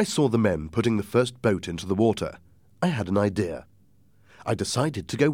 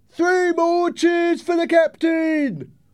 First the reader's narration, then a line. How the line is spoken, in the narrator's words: one of the sailors shouted